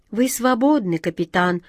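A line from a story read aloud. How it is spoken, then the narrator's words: Hopeless sigh, female. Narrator (Russian): безнадежно вздохнула она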